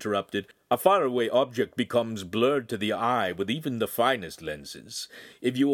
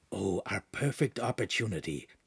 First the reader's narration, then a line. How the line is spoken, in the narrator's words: Pan whispered with enthusiasm